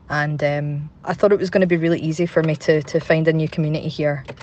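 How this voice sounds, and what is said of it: Glaswegian Scottish accent. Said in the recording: “I had to move back in with my mum and dad up in Glasgow ... obviously you can tell from my accent, I'm from here”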